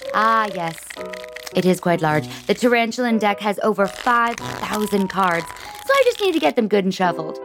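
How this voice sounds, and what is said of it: Weird put-on voice. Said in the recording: “it might sound like I'm doing a weird voice, but I'm not doing a voice.”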